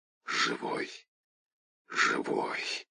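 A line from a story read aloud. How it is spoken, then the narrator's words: Barely audible, frozen lips. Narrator (Russian): еле слышно повторил, сведенными от мороза губами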